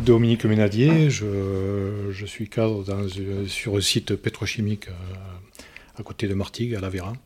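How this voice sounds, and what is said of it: Slight regional French accent. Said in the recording (French): “on l'entend, il y a un petit accent”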